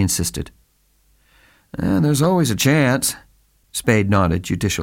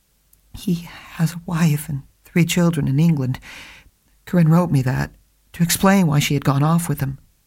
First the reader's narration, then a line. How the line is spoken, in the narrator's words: The girl blushed and replied in a confused voice